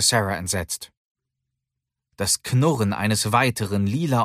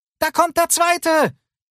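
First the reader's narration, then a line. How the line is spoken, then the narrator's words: Calling out. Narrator (German): rief Lucy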